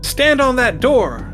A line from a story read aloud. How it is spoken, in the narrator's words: Marine yells out